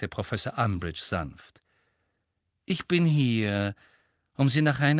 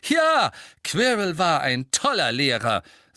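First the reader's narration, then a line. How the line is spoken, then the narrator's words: Loud. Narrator (German): sagte Harry laut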